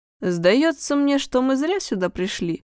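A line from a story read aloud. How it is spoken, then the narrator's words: Grumbling. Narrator (Russian): проворчал Махмуд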